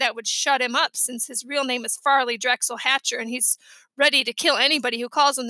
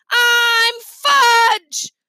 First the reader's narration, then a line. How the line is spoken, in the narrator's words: yelled